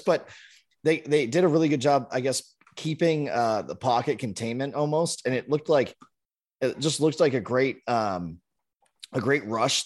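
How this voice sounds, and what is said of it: Slightly hoarse voice. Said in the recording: “Sorry, I was screaming a little bit yesterday. ... My voice is a little hoarse”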